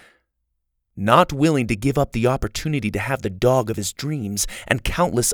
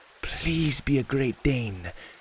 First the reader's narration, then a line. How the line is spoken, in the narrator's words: he whispered to himself